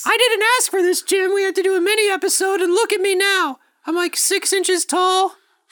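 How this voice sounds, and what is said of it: Tiny shrunken-down character voice. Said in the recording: “my voice is, I've been shrunken down just a little bit ... I'm a tiny, tiny ... If you want to do that the whole time”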